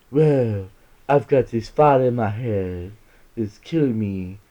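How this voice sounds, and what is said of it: Keanu Reeves impression. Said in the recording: “I don't do a good Keanu Reeves impression.”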